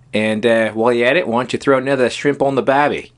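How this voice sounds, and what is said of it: Put-on Australian accent. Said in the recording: “say, put another shrimp on the Barbie in your best Aussie accents ... That was pretty damn good.”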